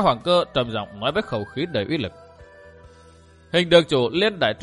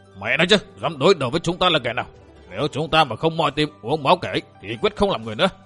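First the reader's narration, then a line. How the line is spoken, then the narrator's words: Furious roar. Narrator (Vietnamese): Đầu lĩnh đội thuyền thứ hai là Giang Lý Bằng Chữ Bưu giận dữ gầm lên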